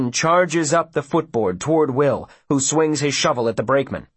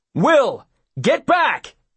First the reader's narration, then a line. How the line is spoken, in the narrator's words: his father yells